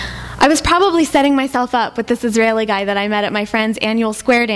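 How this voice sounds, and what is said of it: Usual voice. Nothing is said of it.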